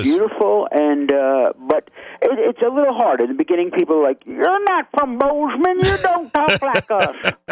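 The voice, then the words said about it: New York, Long Island accent. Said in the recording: “Is it my accent? ... It could be a dead giveaway. It sounds more like Long Island than Brooklyn.”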